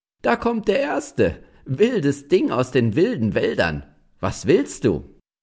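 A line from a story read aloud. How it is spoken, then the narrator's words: Woman laughing as she speaks. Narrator (German): die Frau lachte und sagte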